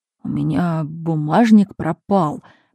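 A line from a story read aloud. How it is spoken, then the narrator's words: Strange, dejected voice. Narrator (Russian): проговорил он чужим упавшим голосом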